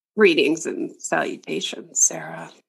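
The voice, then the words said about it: Imitates a film character's voice. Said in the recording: “That was your JD impression.”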